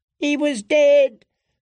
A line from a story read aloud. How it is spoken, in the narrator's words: the weeping boy screamed as the flames licked up his legs